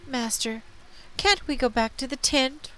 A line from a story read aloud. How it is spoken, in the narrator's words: Riley pleaded